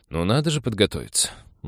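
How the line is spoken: Grim joking. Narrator (Russian): мрачно отшутился Грэм

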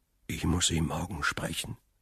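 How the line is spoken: Inaudible murmur. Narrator (German): Villefort raunte ihr unhörbar zu

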